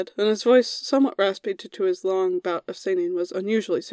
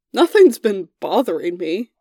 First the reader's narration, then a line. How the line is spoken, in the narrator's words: Merlin chuckled